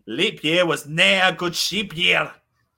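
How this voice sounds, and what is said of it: Put-on Scottish accent, fairly decent. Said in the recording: “Do you want to say that in a Scottish accent? ... Yes, better. Yeah. It's not bad.”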